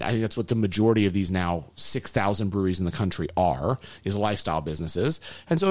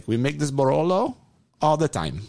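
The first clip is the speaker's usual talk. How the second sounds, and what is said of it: Poor put-on Italian accent. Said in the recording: “that's a terrible accent. I really apologize.”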